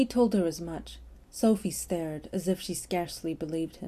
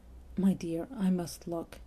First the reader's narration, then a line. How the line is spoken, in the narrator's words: he said, very gently